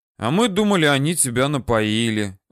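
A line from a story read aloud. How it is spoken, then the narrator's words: Sighing. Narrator (Russian): вздохнул Митя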